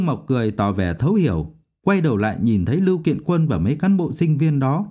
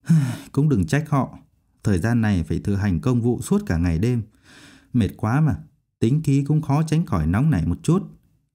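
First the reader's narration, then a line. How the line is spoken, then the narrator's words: Sighing. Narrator (Vietnamese): Thái Vĩ thở dài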